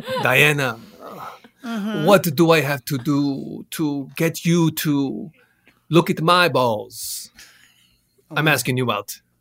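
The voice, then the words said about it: Put-on Spanish accent. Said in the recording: “make sure you do it with a Spanish accent”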